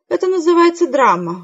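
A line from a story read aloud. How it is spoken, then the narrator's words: Tired explanation. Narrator (Russian): устало объяснила Хэвишем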